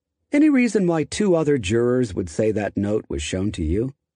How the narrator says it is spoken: Ito asked

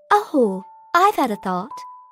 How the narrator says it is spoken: I said brightly, as though I had just been struck dumb by the idea

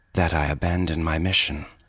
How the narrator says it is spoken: she said coldly

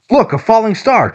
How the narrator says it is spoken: Tripp shouted

